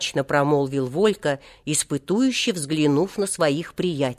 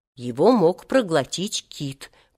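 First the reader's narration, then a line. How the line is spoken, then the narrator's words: Whisper. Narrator (Russian): прошептал Сережа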